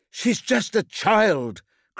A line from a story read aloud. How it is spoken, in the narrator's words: cried Valkyr